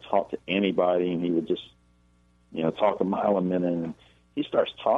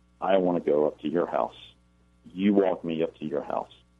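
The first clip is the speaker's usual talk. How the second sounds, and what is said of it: Cold, flat monotone voice. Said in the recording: “in this very cold, monotone voice”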